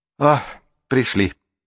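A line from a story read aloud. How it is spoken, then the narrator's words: Relieved exhale. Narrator (Russian): облегченно выдохнула Марук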